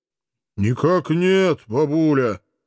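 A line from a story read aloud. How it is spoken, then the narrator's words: Dull boom. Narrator (Russian): глух прогудел он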